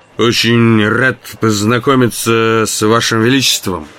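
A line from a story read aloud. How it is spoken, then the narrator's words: Drunken mumble. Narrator (Russian): пьяным голосом пробормотал я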